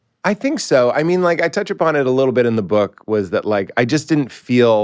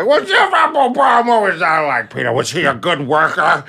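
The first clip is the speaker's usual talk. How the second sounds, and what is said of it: Impression of the speaker's father. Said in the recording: “do an impression of them to them to get them to listen. Like, my dad is talking”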